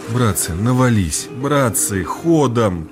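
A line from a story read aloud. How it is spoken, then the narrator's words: Ingratiating pleading voice. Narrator (Russian): заискивающим голосом молил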